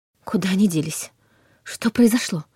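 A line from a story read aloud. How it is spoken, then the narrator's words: Hurried mumble. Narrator (Russian): успела пробормотать Лиля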